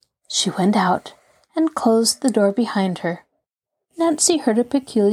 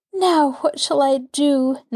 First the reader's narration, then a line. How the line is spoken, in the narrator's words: Nancy questioned herself miserably